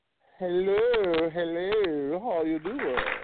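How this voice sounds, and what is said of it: Put-on fake voice. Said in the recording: “That was my fake voice I put on there for a second.”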